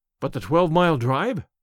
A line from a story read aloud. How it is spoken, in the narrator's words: gasped Hatherley